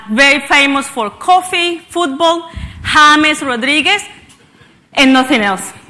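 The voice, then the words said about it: Colombian Spanish accent. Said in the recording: “where this accent comes from ... I come from the beautiful country of Colombia”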